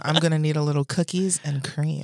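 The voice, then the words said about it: Put-on sexy voice. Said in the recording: “That's my sexy voice.”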